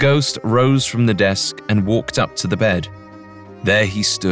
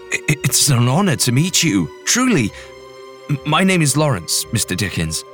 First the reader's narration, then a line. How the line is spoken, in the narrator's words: Larry stammered